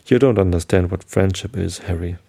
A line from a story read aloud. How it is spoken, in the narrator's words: he murmured